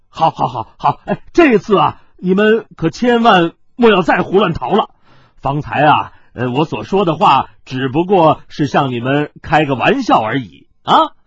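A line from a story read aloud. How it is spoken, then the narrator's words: Laughing. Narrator (Chinese): 司徒笑道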